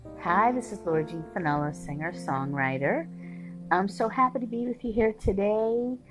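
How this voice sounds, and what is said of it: Hoarse, fading voice. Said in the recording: “As you can hear, I'm losing my voice a little bit”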